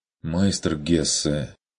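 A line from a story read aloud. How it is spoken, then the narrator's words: Dejected, sinking voice. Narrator (Russian): упавшим голосом проронил Хагнер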